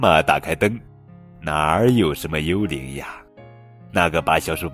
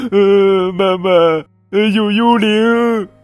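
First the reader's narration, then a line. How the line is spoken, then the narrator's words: Crying little mouse. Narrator (Chinese): 小鼠宝贝哭着说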